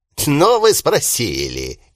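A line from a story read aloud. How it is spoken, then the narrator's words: Displeased snort, continuing. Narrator (Russian): недовольно хмыкнув, продолжил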